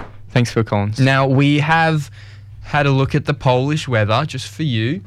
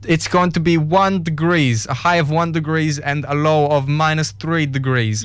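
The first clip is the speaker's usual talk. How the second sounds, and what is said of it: Put-on Polish accent sounding Russian. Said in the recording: “I've been working on a Polish accent over that song... It has not gone well... That's Russian... Say it in that accent.”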